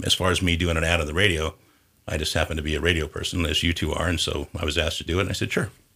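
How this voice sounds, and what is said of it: Great radio voice. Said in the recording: “he's got a great radio voice”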